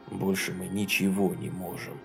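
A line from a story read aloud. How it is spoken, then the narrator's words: Very quiet. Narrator (Russian): очень тихо проговорил он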